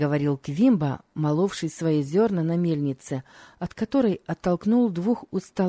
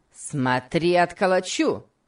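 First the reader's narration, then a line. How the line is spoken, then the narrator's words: Shouted. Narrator (Russian): крикнул Сэмбо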